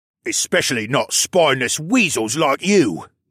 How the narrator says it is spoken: the other one snapped

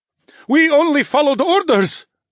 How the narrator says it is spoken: shouted

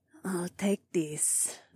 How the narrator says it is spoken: my catwife purred

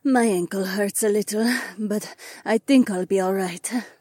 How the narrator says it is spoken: Jessamine sighed

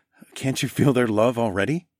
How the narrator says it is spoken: I chuckled

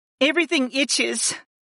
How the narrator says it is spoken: Layla whimpered as she scratched at her reddened arms

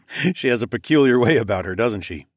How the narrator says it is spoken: I chuckled

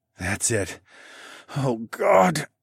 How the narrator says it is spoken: I nearly choked out

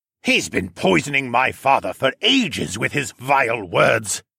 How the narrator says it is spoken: Siskern bellowed

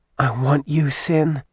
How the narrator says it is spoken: she breathed in his ear

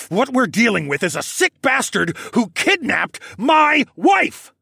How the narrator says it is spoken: roared

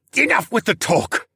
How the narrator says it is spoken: Rocco snarled

